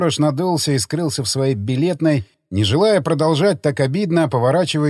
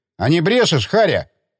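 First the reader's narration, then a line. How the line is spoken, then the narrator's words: Shouted. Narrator (Russian): крикнул он сторожу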